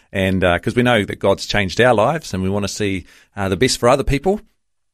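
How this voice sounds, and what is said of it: Strong New Zealand accent. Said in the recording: “you've come back with an even deeper New Zealand accent”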